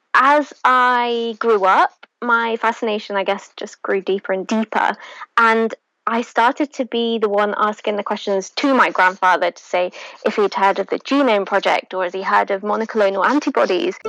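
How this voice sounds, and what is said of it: British accent. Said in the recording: “if you notice by her accent, she's actually from the UK.”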